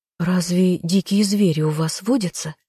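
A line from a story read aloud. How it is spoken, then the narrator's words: Frightened question. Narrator (Russian): испуганно поинтересовалась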